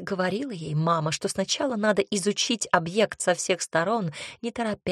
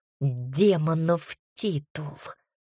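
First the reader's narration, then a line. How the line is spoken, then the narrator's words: Angry whisper. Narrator (Russian): зло прошептала она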